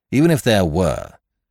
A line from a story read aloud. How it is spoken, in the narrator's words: said the inspector impatiently